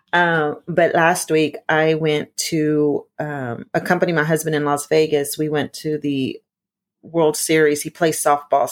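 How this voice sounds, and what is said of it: Hoarse, partly lost voice. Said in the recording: “I know I sound a little bit ronca this morning. That's hoarse ... I did so much yelling that I lost my voice. And so I'm just now getting it back.”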